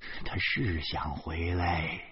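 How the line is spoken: Lowered voice. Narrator (Chinese): 我不得不压低了声调说

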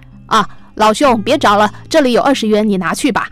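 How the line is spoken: Loud. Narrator (Chinese): 一名男子大声说

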